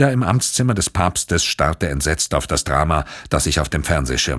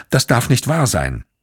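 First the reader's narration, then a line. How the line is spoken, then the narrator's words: Called out. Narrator (German): rief Vittoria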